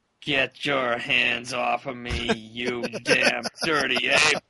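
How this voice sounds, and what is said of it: Impersonation of a movie star. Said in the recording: “I don't know if you're good on impersonations. I'm usually pretty bad at it. But somebody has to say the famous quote from all of his movies.”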